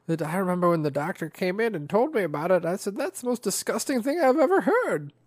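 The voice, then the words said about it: Imitated old lady voice. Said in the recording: “It's my old lady voice. Sorry, it's the best I can do.”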